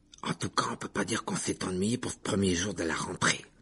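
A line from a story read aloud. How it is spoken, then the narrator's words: Gloomy mutter. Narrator (French): marmonna Ron d'un air sombre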